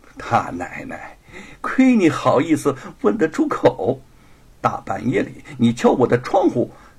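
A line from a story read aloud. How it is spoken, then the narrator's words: Coquettish laughter. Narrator (Chinese): 白雪燕娇笑起来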